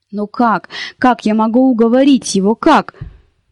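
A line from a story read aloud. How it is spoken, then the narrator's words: Cried out, almost moaning. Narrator (Russian): почти со стоном выкрикнула она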